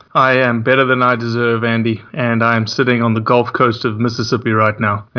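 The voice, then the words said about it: Southern US Mississippi accent. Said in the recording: “you can clearly tell that I'm a native Mississippian ... with your accent, I wasn't going to guess that you were in lower Mississippi. I was actually going to go with lower Alabama.”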